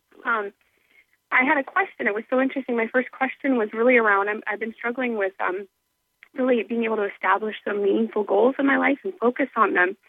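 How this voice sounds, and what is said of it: Slightly raspy voice. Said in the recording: “I'm getting over a cold and flu, so that's why I'm a little raspy.”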